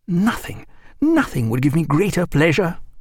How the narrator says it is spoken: cried Stephen

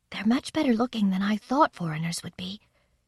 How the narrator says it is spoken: Sylvia whispered to me

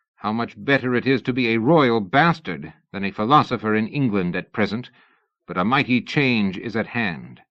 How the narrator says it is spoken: Byron to comment bitterly

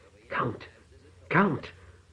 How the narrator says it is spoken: the priest gasped when Frigga seized his head and forced it back

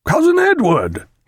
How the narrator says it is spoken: cried

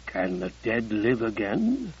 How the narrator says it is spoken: he murmured in his throaty baritone

